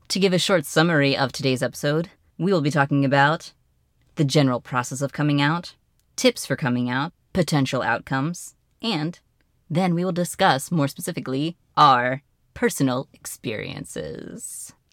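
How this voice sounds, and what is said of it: Put-on transatlantic accent. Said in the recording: “I am loving the pseudo-Mid-Atlantic accent ... it's a fabricated accent from like the 1940s and 30s, when they want to do movies for both English and American audiences. Sorry, transatlantic.”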